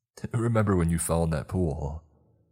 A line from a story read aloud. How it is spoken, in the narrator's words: Tommy laughed